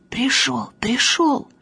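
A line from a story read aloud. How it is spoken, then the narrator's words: Whispered shout. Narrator (Russian): Танька шепотом кричит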